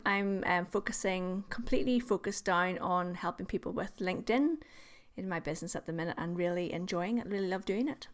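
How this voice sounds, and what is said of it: Northern Irish accent. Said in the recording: “I think you're in Northern Ireland as well. It's good to help people locate your accent”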